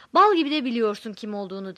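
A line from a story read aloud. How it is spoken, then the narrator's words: Shouting. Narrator (Turkish): diye bağırdı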